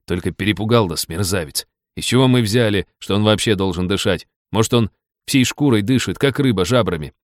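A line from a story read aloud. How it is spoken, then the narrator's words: Reverent admiring whisper. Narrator (Russian): Лиза уставилась на него преисполненными восхищения глазищами и благоговейно прошептала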